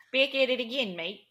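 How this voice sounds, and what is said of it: Attempted Australian accent. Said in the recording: “I cannot do an Australian accent at all. I've been trying all week.”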